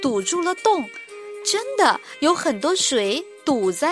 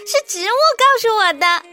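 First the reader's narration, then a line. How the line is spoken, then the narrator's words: Giggling. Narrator (Chinese): 杰尼夫咯咯笑着说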